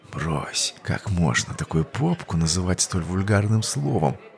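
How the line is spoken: Hot intimate whisper. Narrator (Russian): Вновь дыша ей в шею возле ушка, жарко прошептал он

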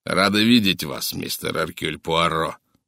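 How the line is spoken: Angry American snapping. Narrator (Russian): злобно бросил американец

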